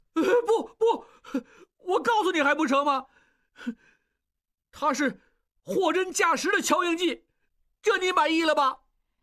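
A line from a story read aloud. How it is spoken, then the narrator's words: Crying. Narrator (Chinese): 他哭起来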